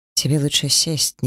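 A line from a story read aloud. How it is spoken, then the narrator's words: Quiet advice. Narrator (Russian): негромко посоветовала Шашхар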